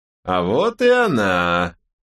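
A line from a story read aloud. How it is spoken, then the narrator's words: Exaggeratedly loud. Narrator (Russian): преувеличенно громко сказал он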